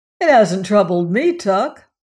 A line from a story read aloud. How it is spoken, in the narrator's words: answered Crane cheerfully